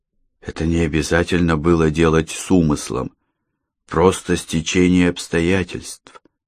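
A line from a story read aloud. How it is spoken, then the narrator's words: Hesitant, sad. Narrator (Russian): Роман помедлил, затем печально сказал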